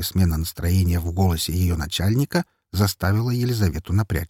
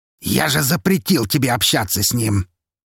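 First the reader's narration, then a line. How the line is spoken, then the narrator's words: Near growl over phone. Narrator (Russian): Едва ли не прорычал в трубку Лазарев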